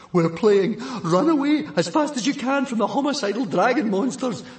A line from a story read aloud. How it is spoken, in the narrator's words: panted Fishlegs